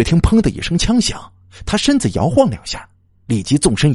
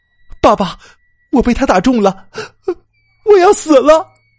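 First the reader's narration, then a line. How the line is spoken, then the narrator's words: Piercing crying. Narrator (Chinese): 哭声在寂静的夜里显得分外刺耳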